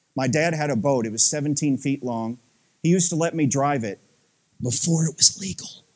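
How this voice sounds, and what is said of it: Slight Southern US accent. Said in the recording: “there's a wee tinge of Southern accent it's just still left after 20-something years in the Midwest”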